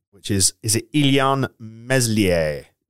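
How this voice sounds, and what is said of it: Attempted French accent. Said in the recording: “That's my best French accent that I can do.”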